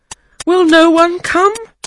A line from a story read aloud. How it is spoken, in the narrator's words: cried